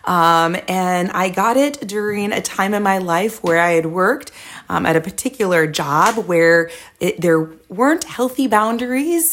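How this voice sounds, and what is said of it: Strained voice. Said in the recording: “my voice sounds a little strained because I am recovering from laryngitis.”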